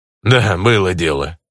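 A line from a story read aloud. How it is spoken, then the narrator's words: Grunting mower. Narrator (Russian): хмыкнул косарь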